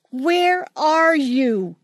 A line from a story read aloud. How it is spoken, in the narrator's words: she screamed